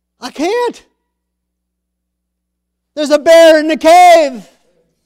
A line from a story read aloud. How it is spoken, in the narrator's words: He yells up